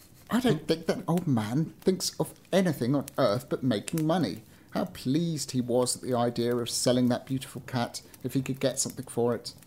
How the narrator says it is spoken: to himself he laughed and said

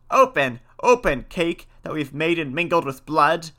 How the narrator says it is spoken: they cried again

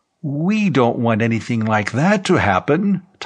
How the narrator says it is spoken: Tom Brangwen said in a frightened voice

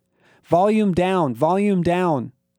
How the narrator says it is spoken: I yelled

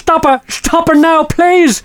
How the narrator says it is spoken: shouted

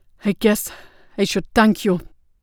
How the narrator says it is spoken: Kassa panted

